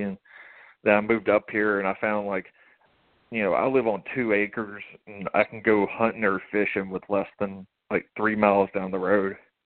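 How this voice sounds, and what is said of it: Strong Southern American accent. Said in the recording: “you have a really strong Southern accent”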